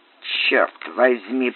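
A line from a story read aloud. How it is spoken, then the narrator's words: Muttered. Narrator (Russian): пробормотал Тедди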